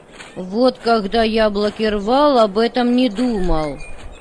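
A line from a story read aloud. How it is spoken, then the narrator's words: Grumbled. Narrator (Russian): Проворчал Коля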